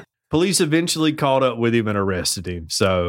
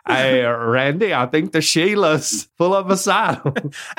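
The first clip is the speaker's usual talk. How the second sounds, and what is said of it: Weak attempt at Australian accent. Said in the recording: “I wish I could do an Australian accent.”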